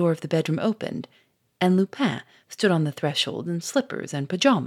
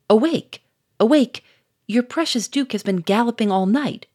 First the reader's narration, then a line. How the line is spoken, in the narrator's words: cried Doucet